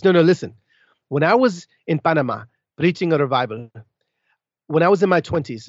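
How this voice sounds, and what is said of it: Panamanian accent imitating another person. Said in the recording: “I'll go ahead and quit the accent now ... My dad's from Colón, Panama”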